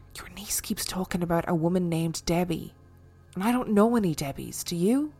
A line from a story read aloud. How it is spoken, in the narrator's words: My sister-in-law whispered to me and said